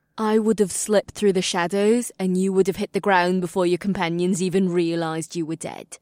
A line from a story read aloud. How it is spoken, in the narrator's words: Amreela replied in a falsely sweet voice